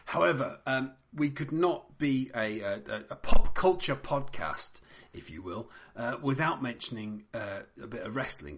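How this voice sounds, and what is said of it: Hoarse, fading voice. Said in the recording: “Excuse my voice as I'm gradually losing it.”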